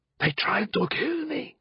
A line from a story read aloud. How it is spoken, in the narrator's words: he said in a harsh whisper